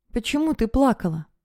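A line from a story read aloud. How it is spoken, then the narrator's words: Quiet question. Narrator (Russian): спросил Камиль негромко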